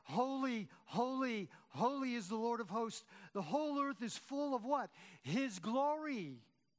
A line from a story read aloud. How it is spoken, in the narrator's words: The angels in Isaiah's vision of God cried out